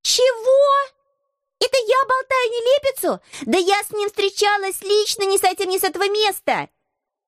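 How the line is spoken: Indignant shout, young woman. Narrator (Russian): крикнула самая маленькая красотка

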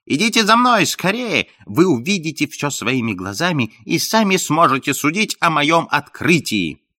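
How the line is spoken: Shouting. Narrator (Russian): Франкленд закричал

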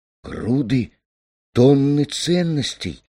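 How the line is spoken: Stunned exclamation. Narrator (Russian): воскликнул он, потрясенный

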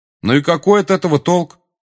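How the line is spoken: Loud question. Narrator (Russian): громко спросил Гарри

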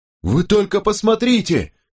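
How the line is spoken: Shouting. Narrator (Russian): крикнул Чарльз Бест

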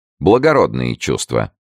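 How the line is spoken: Cold, patronizing. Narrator (Russian): холодно, с оттенком покровительства, заметила Атенаис

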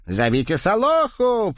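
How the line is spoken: Piggish hoarse shout. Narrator (Russian): прокричал кто-то свинячьим голосом с подхрипывающими гласными

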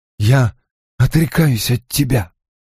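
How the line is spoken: Hoarse. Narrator (Russian): хрипло произнес Рант

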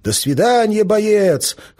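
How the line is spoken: Shouting in chorus. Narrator (Russian): хором кричали они

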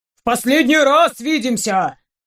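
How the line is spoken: Loud barking. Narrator (Russian): рявкнул дядя Щук

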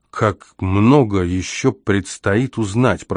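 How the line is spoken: Softly let fall. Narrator (Russian): проронил

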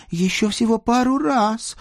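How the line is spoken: Tearful pleading. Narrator (Russian): едва не плача взмолилась Дана

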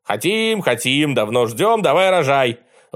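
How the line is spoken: Disorderly crowd yelling. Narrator (Russian): В разнобой заорали высокоученые слушатели

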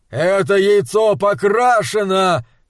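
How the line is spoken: Shouting. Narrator (Russian): кричал Вэрон

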